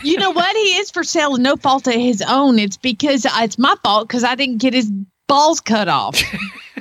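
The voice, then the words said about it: Put-on Oklahoma accent. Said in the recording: “It was very well done in an Oklahoma accent, too”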